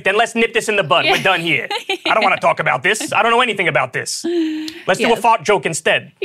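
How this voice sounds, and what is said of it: Imitates another person's voice. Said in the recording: “I do a terrible Bill Burr impression. ... I thought that was pretty good, ... That was better than what I could pull off.”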